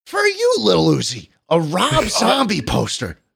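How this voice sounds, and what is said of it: Imitates another person's voice. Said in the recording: “You sound just like him. ... It's a really good impression. ... Nardwar might be my only good impression.”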